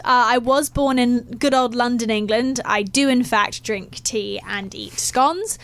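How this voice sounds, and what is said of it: English accent. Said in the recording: “hence the accent”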